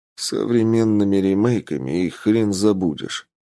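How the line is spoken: Gloomy joke. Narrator (Russian): мрачно пошутил я

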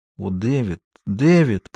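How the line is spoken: Emotional whisper. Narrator (Russian): прошептала она

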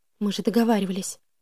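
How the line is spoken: Muttering. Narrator (Russian): пробормотала я

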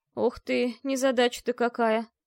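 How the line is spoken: Groaned. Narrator (Russian): простонал мэтр Силанти

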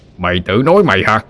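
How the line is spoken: Roaring back. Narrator (Vietnamese): Quan lửa gầm lại

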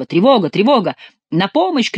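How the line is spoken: Several voices shouting. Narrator (Russian): кричали другие

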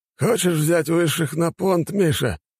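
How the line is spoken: Laughing loudly. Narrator (Russian): владыка расхохотался

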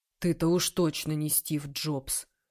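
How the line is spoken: Muttering. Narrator (Russian): пробормотал Вениамин

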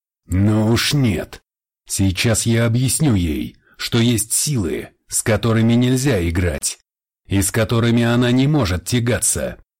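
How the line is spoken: Growling. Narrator (Russian): зарычал Джеймс

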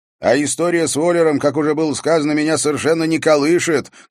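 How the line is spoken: Shout through doorway. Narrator (Russian): крикнул он в открытую дверь спальни

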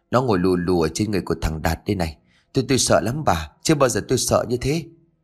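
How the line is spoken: Dazed, shaken voice. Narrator (Vietnamese): ông Phú tiếp tục bằng giọng lạc thần

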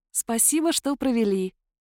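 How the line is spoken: Gentle, affectionate. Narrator (Russian): произнесла я ласково

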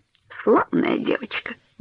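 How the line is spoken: Muttering to himself. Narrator (Russian): бормотал он себе под нос

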